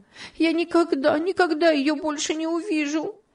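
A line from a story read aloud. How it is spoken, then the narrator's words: Sobbing again. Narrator (Russian): она зарыдала вновь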